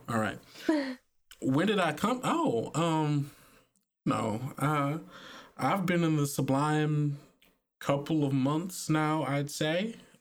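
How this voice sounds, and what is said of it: Character voice with southern twang. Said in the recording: “she had a little bit of a southern twang, actually.”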